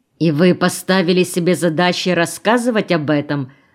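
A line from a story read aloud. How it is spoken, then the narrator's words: Menacing question. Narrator (Russian): спросил Вячеслав опасным тоном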